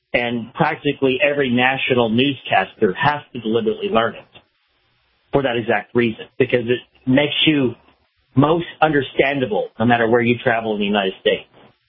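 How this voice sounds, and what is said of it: Mild Southern American accent. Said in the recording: “a muted southern accent from me ... I definitely heard it there ... It was definitely there ... when you say can't instead of can't, it's pretty southern”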